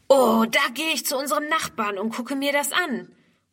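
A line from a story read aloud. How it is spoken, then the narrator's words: Calling out. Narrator (German): ruft Ernst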